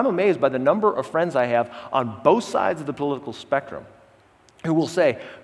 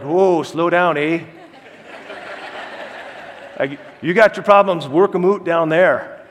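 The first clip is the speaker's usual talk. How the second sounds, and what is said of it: Weak put-on Canadian accent. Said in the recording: “That's my best Canadian accent. ... That's really not very close to a Canadian accent.”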